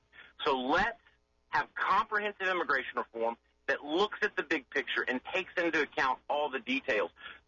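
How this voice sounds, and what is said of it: West Tennessee accent. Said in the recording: “like your accent... my fellow native West Tennesseans that you appreciate our accent”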